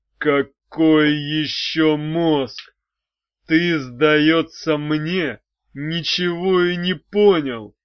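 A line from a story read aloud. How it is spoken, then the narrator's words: Through gritted teeth. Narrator (Russian): процедил Арей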